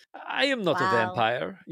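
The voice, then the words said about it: Dracula-style vampire voice. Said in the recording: “do my Dracula voice.”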